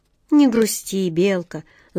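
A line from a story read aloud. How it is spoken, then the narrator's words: Tender. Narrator (Russian): ласково сказал он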